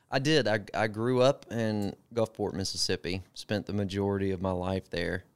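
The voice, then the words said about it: Southern US accent. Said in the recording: “you are a good old boy. ... I'm immediately pegged as the guy from the South. ... I love a Southern accent.”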